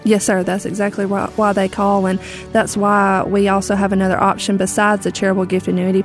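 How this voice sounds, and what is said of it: Southern American accent. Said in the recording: “talk in a southern accent like you do”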